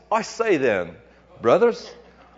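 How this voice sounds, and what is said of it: Poor put-on English accent. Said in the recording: “sounds English, doesn't it? ... I do a horrible English accent”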